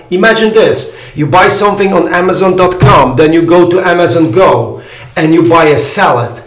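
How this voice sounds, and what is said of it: European accent. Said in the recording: “I'm European, that's why my accent is so funny in the United States.”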